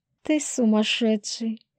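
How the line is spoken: Breathless. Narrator (Russian): Выдохнула

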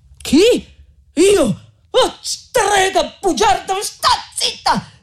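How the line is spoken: Shouted. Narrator (Italian): gridò Renzo

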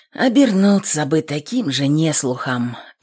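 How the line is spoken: Sigh. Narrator (Russian): вздохнул Степан

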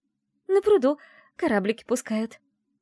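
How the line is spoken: Joyful announcement. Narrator (Russian): радостно оповестила

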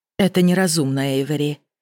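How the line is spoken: Softer, gentle. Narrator (Russian): более мягко произнесла королева

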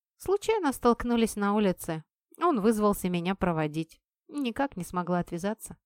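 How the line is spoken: Dry reply. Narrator (Russian): сухо ответила я

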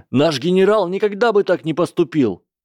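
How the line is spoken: Loud yelling. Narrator (Russian): Кевин Энтвистл орал даже громче Мэнди

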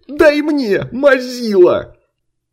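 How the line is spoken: Excited near-yelling crowd. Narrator (Russian): азартно выкрикивали и только что не орали

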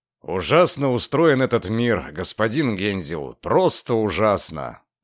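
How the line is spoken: Mutter. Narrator (Russian): Пробормотал

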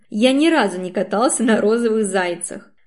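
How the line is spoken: Laughing hard. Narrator (Russian): Катюхина очень хохотать

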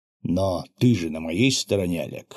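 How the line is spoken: Quiet question after long pause. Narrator (Russian): после очень длинной паузы тихо спросил монах

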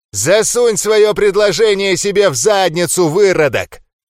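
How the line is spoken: Furious roaring curse. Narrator (Russian): Выругался разъяренный Ндорк и, взревев

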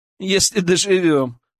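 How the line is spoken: Laughing. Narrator (Russian): рассмеялся Илья

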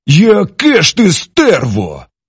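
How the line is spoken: Exclaimed. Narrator (Ukrainian): Вигукнув

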